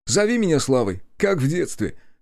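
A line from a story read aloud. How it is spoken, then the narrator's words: Amused snort. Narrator (Russian): хмыкнул он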